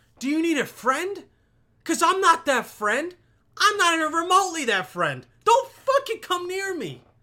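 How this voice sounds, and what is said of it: Yelling. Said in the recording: “sorry for yelling,”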